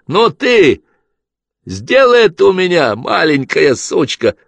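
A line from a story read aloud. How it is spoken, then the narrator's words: Shouted. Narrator (Russian): прокричал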